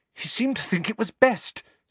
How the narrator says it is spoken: said Hermione, rather breathlessly

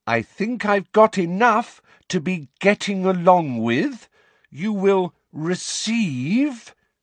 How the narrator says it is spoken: speaking once more in that loud, slow voice

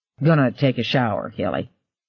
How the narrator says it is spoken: he mumbled

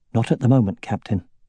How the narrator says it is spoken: Aragorn said, keeping his voice low

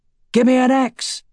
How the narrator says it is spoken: he shouted

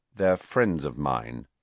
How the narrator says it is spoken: said Harry coldly

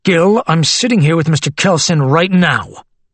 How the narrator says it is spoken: Jenkins replied in an irritated tone

